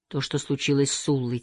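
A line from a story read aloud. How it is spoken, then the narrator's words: Quiet. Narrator (Russian): тихо сказала она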